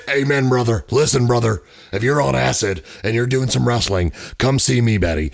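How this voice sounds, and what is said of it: Hulk Hogan impression. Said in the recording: “It's Hulk Hogan ... I told you, every impersonation sounds like me ... Doing an impersonation.”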